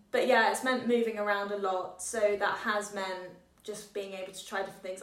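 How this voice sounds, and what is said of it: English accent. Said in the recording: “That's why I have an English accent.”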